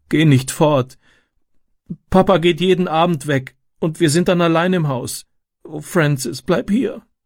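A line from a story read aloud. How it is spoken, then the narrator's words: Sobbing. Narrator (German): schluchzte sie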